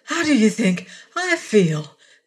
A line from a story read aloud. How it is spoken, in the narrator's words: Mara gasped